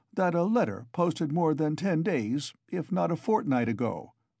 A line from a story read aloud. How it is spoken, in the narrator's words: he faltered